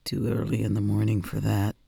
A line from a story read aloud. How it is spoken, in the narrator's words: he grumbles